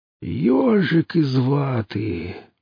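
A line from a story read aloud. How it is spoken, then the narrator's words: Groan. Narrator (Russian): простонал торговец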